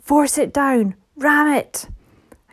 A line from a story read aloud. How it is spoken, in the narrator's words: someone shouted